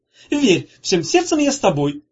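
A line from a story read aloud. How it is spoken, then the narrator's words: Grandiose exclamation. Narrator (Russian): воскликнул он с пафосом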